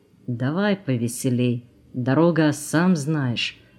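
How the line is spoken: Quiet. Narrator (Russian): тихо добавил

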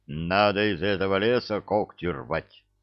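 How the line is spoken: Gloomy agreement. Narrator (Russian): мрачно согласился Миша

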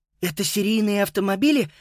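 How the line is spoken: Excited question. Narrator (Russian): взволнованно спросил Юстус

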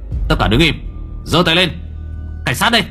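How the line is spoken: Cold, commanding voice. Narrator (Vietnamese): một âm thanh lạnh lùng vang lên

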